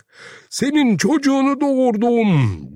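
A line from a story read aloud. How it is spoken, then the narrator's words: Crying out. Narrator (Turkish): diye haykırdı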